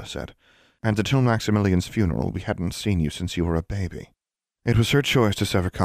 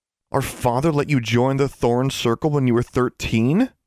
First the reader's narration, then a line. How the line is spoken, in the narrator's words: Alexandra exclaimed